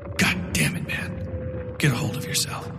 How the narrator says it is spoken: he whispered

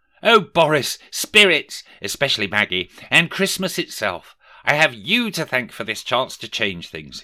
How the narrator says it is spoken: he exclaimed

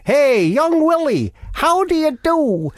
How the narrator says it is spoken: he shouted

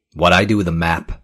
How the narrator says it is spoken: Joel said evenly

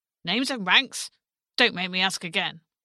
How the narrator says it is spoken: the centurion barked through his tombstone teeth

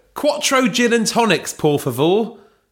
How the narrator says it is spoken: shouted Belinda

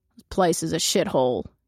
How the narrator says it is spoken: he growls

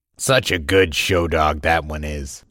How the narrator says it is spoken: he chuckled

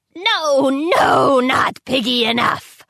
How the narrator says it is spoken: she roared

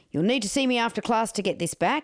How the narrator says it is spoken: barked

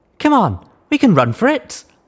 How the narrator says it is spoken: Locke said eagerly

